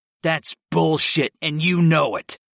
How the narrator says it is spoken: I growled

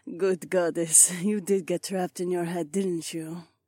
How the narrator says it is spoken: She purred

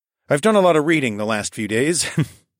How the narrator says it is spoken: I chuckled

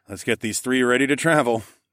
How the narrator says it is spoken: I chuckled

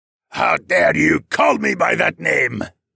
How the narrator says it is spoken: the Dark Sorcerer bellowed

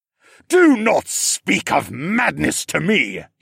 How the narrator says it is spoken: he bellowed

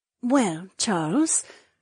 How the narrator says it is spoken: Edany breathed

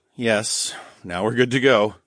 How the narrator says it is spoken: chuckled

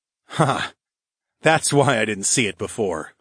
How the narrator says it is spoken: I chuckled

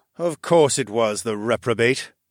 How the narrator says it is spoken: he grumbled with a dark scowl

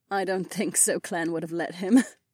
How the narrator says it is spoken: Caltrice said with a slight giggle

